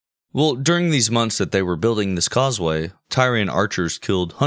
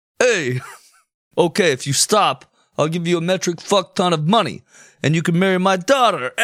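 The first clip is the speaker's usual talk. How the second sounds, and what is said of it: Put-on New York accent. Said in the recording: “You gotta do a New York accent.”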